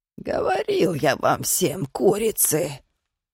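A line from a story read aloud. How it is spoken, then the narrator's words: Old man grumbling. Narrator (Russian): проворчал дед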